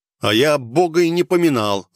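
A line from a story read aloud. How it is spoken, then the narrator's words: Snapping, slightly nervous. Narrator (Russian): огрызнулся я, ощущая легкий мандраж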